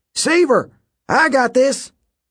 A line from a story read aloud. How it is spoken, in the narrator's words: Coach Hedge shouted down once more